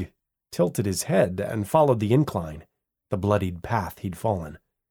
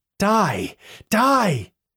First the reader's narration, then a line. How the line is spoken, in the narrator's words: Heather screamed